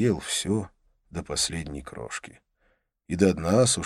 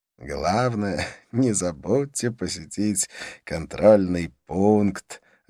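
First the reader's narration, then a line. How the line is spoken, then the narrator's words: Laughing. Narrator (Russian): рассмеялся он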